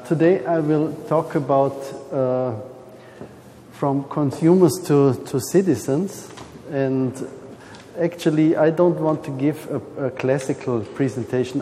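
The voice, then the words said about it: Heavy non-native English accent. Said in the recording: “this is not my mother language ... my heavy accent”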